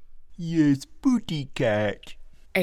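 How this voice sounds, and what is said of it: Silly baby-talk voice. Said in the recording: “in a stupid baby voice”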